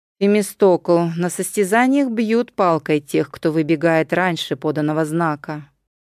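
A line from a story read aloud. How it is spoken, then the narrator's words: Plain. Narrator (Russian): сказал Евребиат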